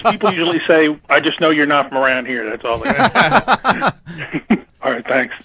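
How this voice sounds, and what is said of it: Mid-Atlantic Maryland accent. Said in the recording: “Maryland area ... my accent ... a mid-Atlantic accent ... the Maryland accents”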